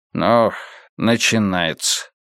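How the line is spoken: Weary sigh. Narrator (Russian): устало вздохнул Карлос

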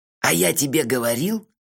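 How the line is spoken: Triumphant whisper. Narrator (Russian): торжествующе зашептал Мелифара

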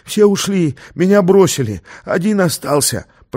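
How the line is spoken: Wheezing rasp. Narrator (Russian): просипел тот

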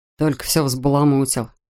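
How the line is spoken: Grumble. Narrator (Russian): проворчал Рэтчет

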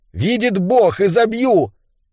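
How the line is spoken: Loud shout. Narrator (Russian): он громко закричал

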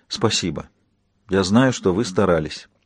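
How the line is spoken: Quiet, soft remark. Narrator (Russian): Кейт негромко проронила

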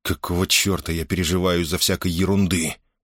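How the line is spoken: Rough, abrupt. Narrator (Russian): грубо оборвал он свои раздумья

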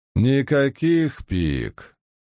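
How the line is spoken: Grumbling. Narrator (Russian): проворчал Семрадрит

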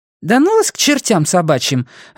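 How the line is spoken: Irritable snap. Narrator (Russian): огрызнулась крольчиха

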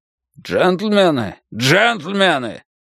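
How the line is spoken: Booming voice from back. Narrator (Russian): прогремел голос из задних рядов

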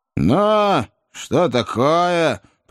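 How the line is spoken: Grumbling. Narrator (Russian): проворчал человек в коричневом пальто

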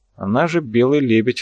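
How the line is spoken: Scoffing. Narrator (Russian): хмыкнул Михаил

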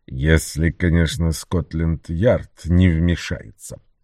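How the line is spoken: Muttered under breath. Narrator (Russian): пробормотал Бэджворти себе под нос

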